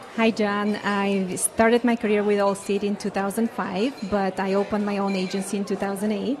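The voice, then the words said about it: Bulgarian accent. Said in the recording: “What a lovely accent ... I am from Bulgaria.”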